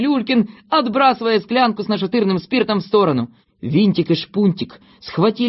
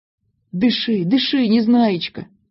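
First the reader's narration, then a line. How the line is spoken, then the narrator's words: Gentle, affectionate. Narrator (Russian): ласково сказал доктор Пилюлькин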